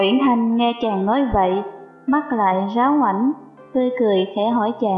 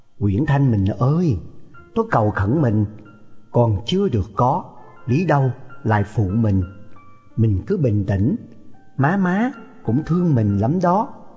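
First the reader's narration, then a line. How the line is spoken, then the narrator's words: Soft infatuated. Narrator (Vietnamese): Đoàn Dự lòng chàng càng thêm mê mẩn, nói khẽ bảo nàng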